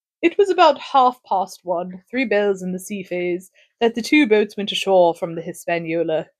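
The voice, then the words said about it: Put-on accent for the doctor character. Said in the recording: “I am going to try to do the doctor's accent for this ... If it's too obnoxious, you just let me know.”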